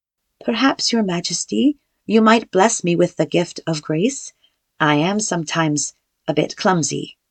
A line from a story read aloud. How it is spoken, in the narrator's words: She blushed bright red and said in a soft voice